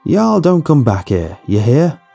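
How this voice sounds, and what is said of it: Fake hillbilly accent. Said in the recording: “in a fake hillbilly accent”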